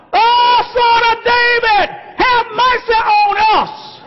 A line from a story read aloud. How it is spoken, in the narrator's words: They holler out